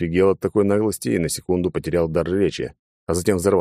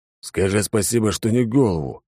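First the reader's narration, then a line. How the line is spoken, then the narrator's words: Muttered. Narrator (Russian): буркнул Низя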